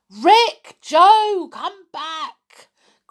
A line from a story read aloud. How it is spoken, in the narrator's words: cried What's-His-Name